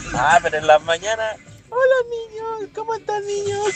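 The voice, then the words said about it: Imitates a character's voice. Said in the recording (Spanish): “hacer la voz de Willy”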